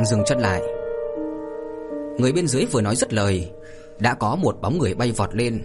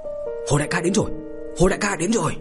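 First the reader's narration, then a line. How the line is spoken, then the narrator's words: Shouting. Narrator (Vietnamese): có người la lên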